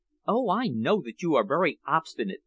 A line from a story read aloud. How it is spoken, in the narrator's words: said softly